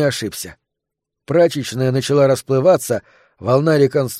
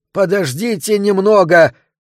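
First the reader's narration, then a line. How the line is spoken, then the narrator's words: Excited shout. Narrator (Russian): возбужденно крикнул он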